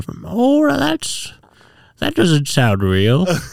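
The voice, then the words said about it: Imitates another person's voice. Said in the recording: “That's the worst impression of your mom.”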